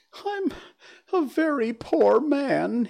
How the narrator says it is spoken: he sobbed

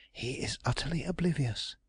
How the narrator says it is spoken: Mary whispered

